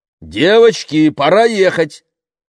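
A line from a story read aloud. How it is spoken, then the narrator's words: Father shouting. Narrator (Russian): крикнул папа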